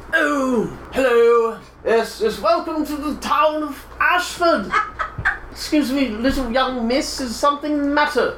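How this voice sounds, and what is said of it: Funny character voice. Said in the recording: “you have a funny voice”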